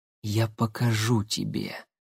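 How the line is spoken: Soft. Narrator (Russian): тихо произнесла она

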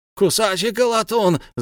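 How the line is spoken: Group shrieking. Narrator (Russian): завизжали они

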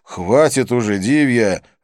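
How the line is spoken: Irritated interruption. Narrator (Russian): раздраженно прервал ее я

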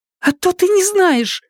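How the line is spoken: Shrill voice. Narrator (Russian): В ее голосе явственно зазвучали визгливые нотки

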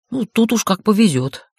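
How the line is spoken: Snorting. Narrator (Russian): хмыкнул Хейт

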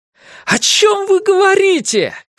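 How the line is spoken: Shouting. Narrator (Russian): крикнул Ларри

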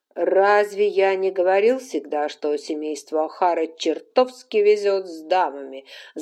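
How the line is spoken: Pleased guffaw. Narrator (Russian): захохотал он, довольный собственной шуткой

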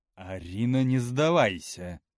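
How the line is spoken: Stern. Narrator (Russian): строго сказала она

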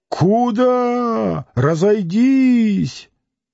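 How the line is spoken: Angry pleading shout. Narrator (Russian): закричал и гневно, и умоляюще

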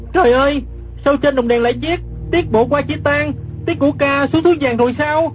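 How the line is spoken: Startled cry from ground. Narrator (Vietnamese): Gã kép hát đang nằm dưới đất, giật mình la lên

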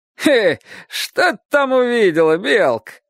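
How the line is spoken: Chuckling rich tailor. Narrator (Russian): Хохотнув богатый портной

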